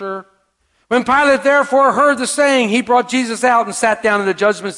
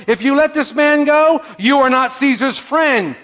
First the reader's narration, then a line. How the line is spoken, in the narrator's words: the Jews cried out, saying